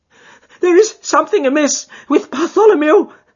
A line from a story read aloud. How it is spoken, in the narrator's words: cried